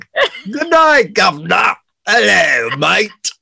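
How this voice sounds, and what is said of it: Mock British accent. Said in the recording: “You could always pass for a British person... We don't talk like that... That's what Americans think you talk like”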